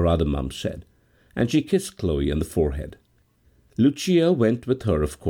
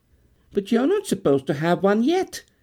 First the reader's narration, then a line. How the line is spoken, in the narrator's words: Melissa squealed